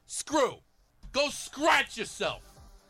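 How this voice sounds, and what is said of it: Yelling with thick Jersey accent. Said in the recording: “It's got yelling. It's got bizarre ... slang ... thick Jersey accent”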